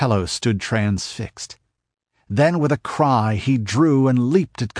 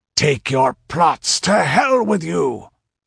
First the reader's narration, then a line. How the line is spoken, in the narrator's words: he roared